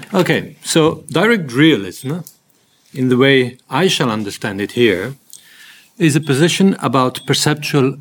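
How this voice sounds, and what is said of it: Speaks English with an accent. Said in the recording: “I hope that my accent is going to be okay. ... In case it is not, you just interrupt me loudly if a word doesn't come through”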